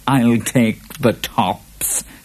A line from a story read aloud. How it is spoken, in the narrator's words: chuckled the Boggart